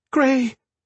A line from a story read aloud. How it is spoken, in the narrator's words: Shay cried